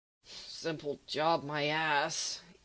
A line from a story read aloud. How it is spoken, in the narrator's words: mutters